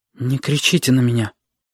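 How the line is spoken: Quiet. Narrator (Russian): тихо сказала Сашка

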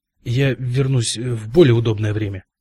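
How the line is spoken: Stammering mutter. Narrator (Russian): заикаясь, пробормотал сэр Джон

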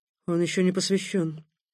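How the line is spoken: Quiet remark. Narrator (Russian): тихо обронил Такеда

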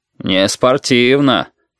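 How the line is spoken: Deep bass voice. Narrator (Russian): пробасил физрук

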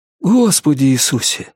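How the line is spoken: Breathless exhale. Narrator (Russian): выдохнул Норрис

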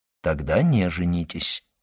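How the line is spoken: Plain. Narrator (Russian): сказал граф

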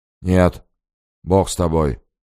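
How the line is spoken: Sudden mumble. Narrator (Russian): промямлил вдруг Григорий

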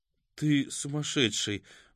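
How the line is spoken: Breathless exhale. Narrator (Russian): выдохнула Катя

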